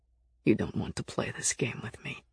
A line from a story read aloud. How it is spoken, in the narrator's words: said quietly